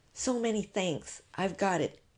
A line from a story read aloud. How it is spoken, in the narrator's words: Miss Stoner murmured